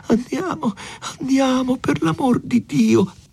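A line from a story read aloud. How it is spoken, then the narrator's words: Faint pleading voice. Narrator (Italian): Lucia chiamava Renzo con voce fioca e diceva pregando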